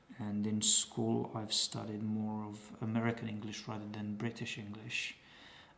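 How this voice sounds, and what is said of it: Romanian English accent, British-American mixed. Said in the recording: “I lived for a while in Coventry for about 4 years, which is probably one of the strong influences in my accent ... picked up a lot of Americanisms from movies and TV in general, so probably that's where my accent comes from ... my accent may not be the standard Eastern European, Romanian, Transylvanian accent that you'd hear”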